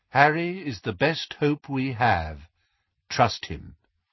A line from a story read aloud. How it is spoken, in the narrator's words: said Lupin calmly